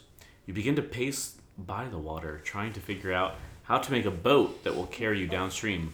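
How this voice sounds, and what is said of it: Usual voice. Nothing is said of it.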